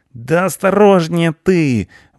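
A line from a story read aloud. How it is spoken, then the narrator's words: Alarmed howl. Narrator (Russian): взвыл Рыжопиус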